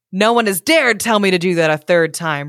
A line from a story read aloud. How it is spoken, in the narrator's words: roared the Lindworm